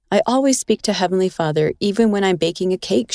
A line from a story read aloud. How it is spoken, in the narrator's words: she said